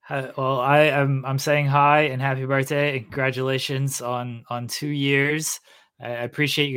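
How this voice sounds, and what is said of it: Usual voice. Nothing is said of it.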